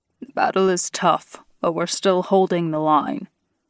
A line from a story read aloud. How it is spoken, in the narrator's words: one of the werewolves growled